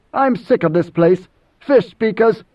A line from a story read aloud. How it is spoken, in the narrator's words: spat